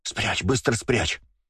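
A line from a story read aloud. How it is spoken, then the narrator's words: Anxious whisper. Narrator (Russian): Сева тревожно зашептал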